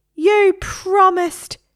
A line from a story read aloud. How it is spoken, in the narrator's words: screamed Harry